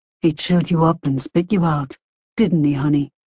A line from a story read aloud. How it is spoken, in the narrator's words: Stellan asked gently